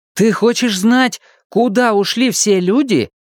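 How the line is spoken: Exclamation. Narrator (Russian): воскликнул Том

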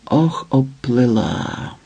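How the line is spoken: Ominous whisper. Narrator (Ukrainian): прошепотіла недобре

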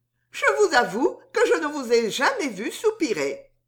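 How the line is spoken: Laughing. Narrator (French): dit Suzon en riant

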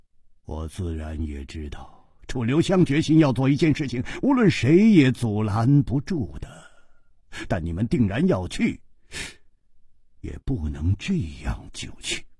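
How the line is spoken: Sighing. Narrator (Chinese): 姬冰燕叹道

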